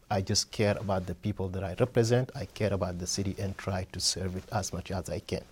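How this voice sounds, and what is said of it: Foreign accent. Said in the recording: “you can hear it from my voice. I'm not from here. I'm immigrant.”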